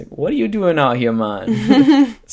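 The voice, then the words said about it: Poor Jamaican accent imitation. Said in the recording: “they were Jamaican ... He gave some terrible accent”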